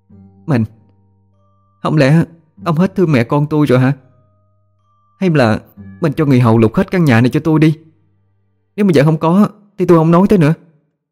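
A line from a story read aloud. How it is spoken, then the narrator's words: Crying, sniffling woman. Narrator (Vietnamese): bà Hai kiều như vừa khóc vừa sụt sùi nói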